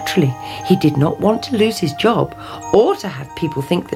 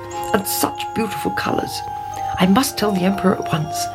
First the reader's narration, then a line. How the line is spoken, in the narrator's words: he muttered